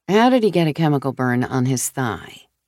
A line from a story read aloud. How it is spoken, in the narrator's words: Rachel asked